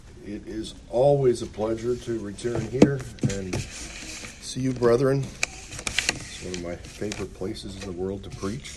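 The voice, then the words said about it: Scratchy, hoarse throat. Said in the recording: “excuse my voice. ... all I have left is a scratchy throat”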